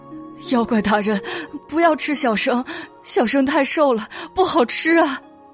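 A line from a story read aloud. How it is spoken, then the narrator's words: Frightened, tearful. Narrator (Chinese): 袁耀大吃一惊 语带哭腔的说道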